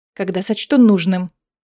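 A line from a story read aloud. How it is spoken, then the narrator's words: Snapping retort. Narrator (Russian): огрызнулась Аэлина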